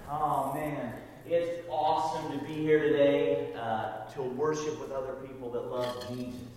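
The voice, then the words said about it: Slight Southern twang. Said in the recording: “He does have a southern accent ... he's got a little bit of a twang”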